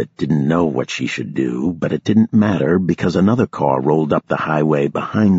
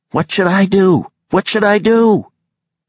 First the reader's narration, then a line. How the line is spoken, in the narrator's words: The cop started shouting again